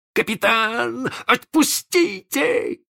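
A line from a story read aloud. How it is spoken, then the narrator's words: Yell. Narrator (Russian): завопил Белоручка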